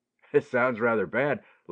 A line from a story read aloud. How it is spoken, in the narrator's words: laughed Ted